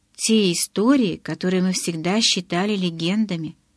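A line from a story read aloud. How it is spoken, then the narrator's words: Plain. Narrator (Russian): сказал он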